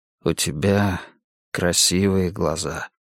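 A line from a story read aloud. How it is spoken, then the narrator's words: Quiet. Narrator (Russian): тихо сказал Эрик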